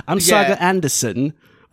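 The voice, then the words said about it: Imitates a slipping British accent. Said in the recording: “slipping out of her accent ... Her British accent is coming out every other word.”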